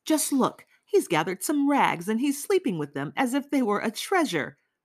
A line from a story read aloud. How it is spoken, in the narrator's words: Nastasya said, then went off into fits of painfully nervous laughter